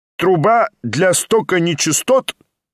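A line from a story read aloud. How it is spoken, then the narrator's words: Loud question. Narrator (Russian): громко осведомился доктор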